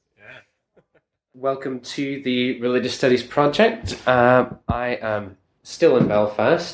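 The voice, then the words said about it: Irish accent. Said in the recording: “my accent, because I normally don't have much of a Irish accent, but it comes back when I am surrounded by the natives”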